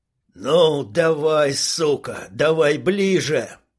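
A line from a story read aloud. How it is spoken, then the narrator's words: Growling, hoarse, young man psyching up. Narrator (Russian): рычал, хрипел парень, накачивая себя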